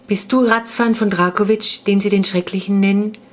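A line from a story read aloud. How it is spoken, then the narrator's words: Firm questioning voice. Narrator (German): fragte Ferdinand mit fester Stimme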